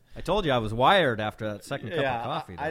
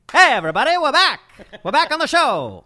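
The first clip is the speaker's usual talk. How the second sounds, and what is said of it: 1930s newsboy radio voice. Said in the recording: “That's my best radio voice. I do it like a 1930s like newsboy.”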